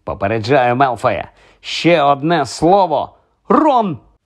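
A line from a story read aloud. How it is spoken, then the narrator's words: Sudden exclamation. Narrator (Ukrainian): Вигукнула раптом Герміона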